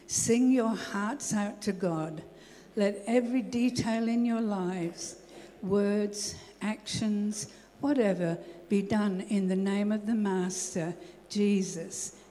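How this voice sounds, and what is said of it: Speaks with a noticeable accent. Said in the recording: “I still love your accent.”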